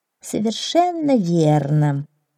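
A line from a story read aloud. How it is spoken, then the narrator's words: Mumbling. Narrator (Russian): пробормотала гусеница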